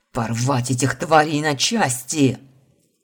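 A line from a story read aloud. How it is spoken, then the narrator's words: Growl. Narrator (Russian): Рыкнул Марат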